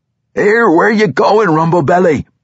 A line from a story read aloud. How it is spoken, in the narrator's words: Bruner shouted